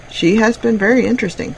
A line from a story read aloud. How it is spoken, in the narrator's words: said Frampton